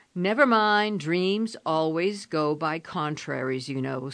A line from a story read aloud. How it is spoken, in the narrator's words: said Laura cheerfully